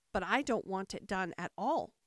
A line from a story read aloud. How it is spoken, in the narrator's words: groaned the poor Queen